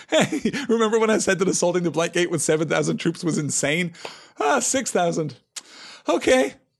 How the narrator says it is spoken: Prince Imrahil kind of chuckling

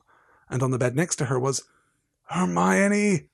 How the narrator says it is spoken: Ron groaned

